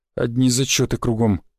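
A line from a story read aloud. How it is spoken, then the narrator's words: Sighing. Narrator (Russian): вздохнул Владимир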